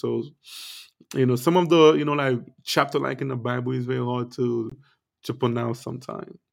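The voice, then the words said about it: Non-native English accent. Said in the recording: “you guys know I do have an accent”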